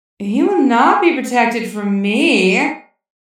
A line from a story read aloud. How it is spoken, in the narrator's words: Lady Gotham's voice cooed